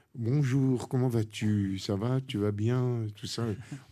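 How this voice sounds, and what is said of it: Put-on prim standard French accent. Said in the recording (French): “on parlait pointu ... le téléphone, ça, nous enlevait notre naturel”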